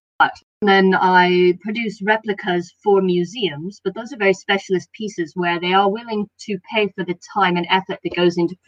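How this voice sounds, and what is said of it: Non-British accent. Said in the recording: “you can tell by my accent at this point that I'm not British originally”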